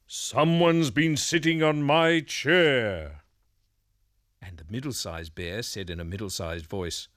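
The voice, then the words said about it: Big deep bear voice. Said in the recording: “in a great big voice”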